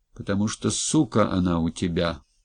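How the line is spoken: Deep bass voice. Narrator (Russian): басом ответил Лёлик

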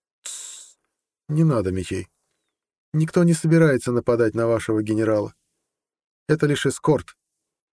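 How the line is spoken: Melodic, pleasant voice. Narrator (Russian): мелодичным приятным голосом сказала

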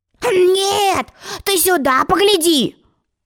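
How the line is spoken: Yelling. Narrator (Russian): завопил он

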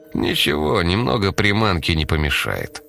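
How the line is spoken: Calm reply. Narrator (Russian): спокойно ответил Лебедев

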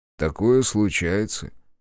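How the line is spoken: Calm reply. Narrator (Russian): спокойно ответил орк

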